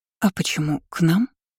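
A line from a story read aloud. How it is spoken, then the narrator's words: Youngest girl mumbling. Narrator (Russian): пробормотала младшенькая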